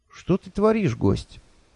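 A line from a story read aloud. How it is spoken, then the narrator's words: Sad question. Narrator (Russian): печально спросило пятно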